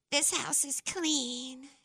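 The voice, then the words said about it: Imitates a movie character's voice. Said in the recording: “my impersonation? ... the little lady from Poltergeist”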